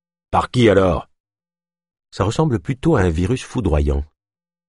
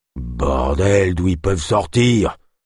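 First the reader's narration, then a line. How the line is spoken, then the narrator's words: Grumbling growl. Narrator (French): grogna Kolb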